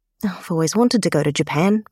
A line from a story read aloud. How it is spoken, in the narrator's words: Emma murmurs